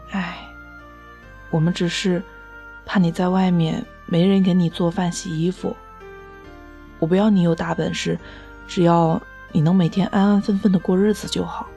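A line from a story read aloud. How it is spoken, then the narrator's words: Sighing mother. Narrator (Chinese): 我妈被我的长篇大论噎得说不出话来，最后叹了一口气说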